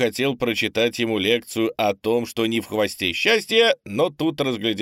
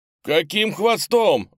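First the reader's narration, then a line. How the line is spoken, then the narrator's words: Howling. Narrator (Russian): взвыл панда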